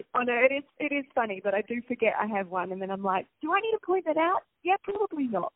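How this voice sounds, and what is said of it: New Zealand accent. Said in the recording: “I do have an accent, and I am originally from New Zealand ... let's go Kiwi”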